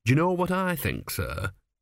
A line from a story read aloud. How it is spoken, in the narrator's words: said earnestly